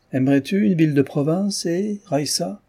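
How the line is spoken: Almost joyful father. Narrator (French): fit le père d'un ton presque joyeux

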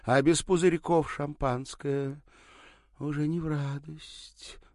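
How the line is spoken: Sigh. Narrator (Russian): вздохнула она

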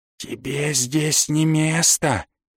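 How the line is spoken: Distant whisper. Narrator (Russian): донесся откуда-то шепот

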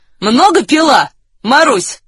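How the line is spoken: Question in Russian. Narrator (Russian): спросил один по-русски

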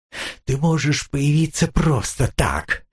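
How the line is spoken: Strained, forced words. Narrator (Russian): капитан с трудом выдавил из себя

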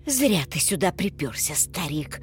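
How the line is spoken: Through gritted teeth. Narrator (Russian): процедил Мартын

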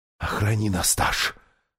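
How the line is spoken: Whispering. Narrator (Russian): шептала Лазарелина

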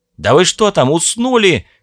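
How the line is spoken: Roar. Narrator (Russian): взревел Стив

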